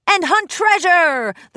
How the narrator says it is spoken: the rest of them hollered together

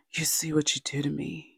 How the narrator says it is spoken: murmurs

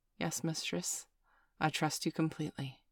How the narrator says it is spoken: reply softly

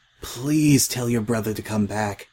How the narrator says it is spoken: pleaded

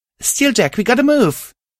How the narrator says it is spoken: I called out

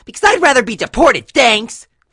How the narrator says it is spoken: Scootaloo yelled

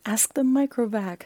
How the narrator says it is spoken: wailed Geraldette 1

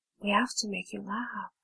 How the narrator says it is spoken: said Snow softly

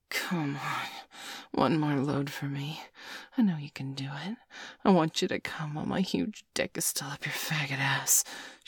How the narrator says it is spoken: she hissed

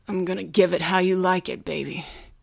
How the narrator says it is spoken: growled

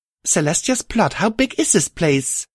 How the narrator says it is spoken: I exclaimed

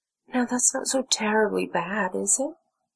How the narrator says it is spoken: asked Snow sweetly

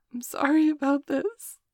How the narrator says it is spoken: I sobbed

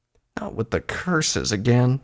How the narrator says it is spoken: Spike groaned

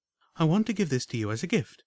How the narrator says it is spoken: Homage said with a soft smile and a warm but insistent voice

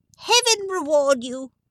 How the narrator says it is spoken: cried the widow fervently

